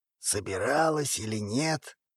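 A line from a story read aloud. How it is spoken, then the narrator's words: Meaningful snort. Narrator (Russian): многозначительно хмыкнул Альфа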